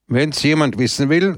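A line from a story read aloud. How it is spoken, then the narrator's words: Loud. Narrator (German): sagte er laut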